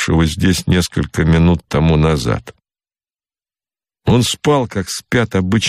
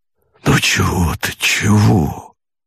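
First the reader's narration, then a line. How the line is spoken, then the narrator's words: Muttering. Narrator (Russian): бормотал Богомолов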